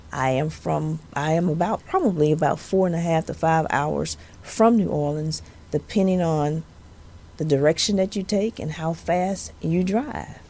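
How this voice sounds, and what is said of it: Southern US accent. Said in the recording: “my southern accent ... I am from the dirty South. I'm from Louisiana.”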